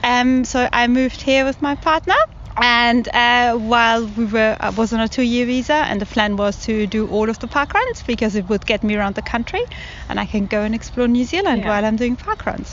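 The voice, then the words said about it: German accent. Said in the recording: “your accent's a German accent, isn't it?”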